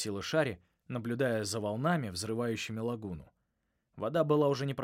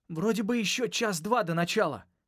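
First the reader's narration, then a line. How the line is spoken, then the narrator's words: Shout lost in wind. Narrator (Russian): крикнул, но ветер унес мои слова за море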